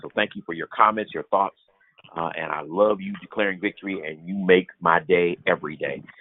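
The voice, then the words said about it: Sleepy, slightly crackly voice. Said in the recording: “I'm a little sleepy today ... my voice is a little crackly”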